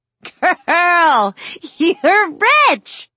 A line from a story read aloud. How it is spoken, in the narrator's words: Jasmine screams and says